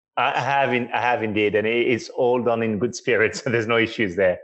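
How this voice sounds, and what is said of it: French accent. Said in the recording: “as you may or may not be able to tell from his accent, is French”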